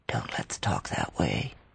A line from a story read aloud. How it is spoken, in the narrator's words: he whispered